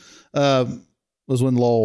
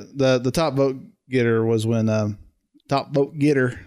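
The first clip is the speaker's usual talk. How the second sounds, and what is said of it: Put-on Southern US accent. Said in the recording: “that was my southern accent for you”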